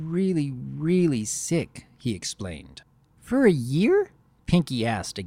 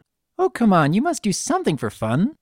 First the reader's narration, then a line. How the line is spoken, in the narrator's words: she squeaked